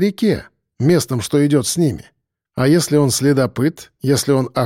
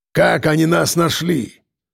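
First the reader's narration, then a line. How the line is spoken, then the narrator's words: Angry exhale, crow. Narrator (Russian): Зло выдохнул ворон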